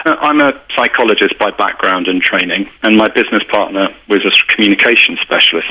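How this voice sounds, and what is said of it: British accent. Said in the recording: “You can probably tell by my accent that I'm British.”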